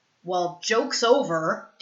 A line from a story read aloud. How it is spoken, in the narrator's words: Derek snarls